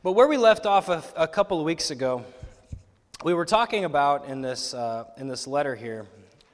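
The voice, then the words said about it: Voice slightly going, strained. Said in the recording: “I'm losing my voice a little bit this morning”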